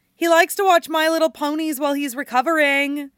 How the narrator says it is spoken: Erica ... shouts

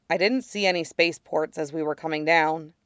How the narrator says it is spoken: Kix says, and his voice is faintly tense but controlled

